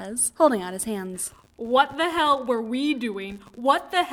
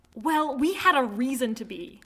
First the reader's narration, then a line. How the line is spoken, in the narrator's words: the girl snaps